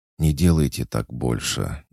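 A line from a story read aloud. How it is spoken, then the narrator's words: Muffled, flustered breath. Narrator (Russian): глухо выдохнула девушка, не зная, куда себя деть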